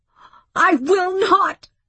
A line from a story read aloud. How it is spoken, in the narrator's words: she screamed